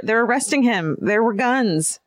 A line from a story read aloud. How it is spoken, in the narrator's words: stutter